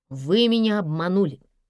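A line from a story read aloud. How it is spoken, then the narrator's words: Stern repetition. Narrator (Russian): строго повторил гардеробщик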